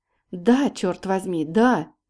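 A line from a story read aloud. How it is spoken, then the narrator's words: Exclamation. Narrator (Russian): воскликнул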